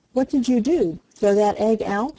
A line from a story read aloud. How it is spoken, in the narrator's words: asked Peter